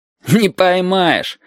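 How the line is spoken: Laughing. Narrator (Russian): засмеялся Витька

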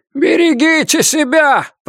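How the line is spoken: Shout. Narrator (Russian): прокричал он

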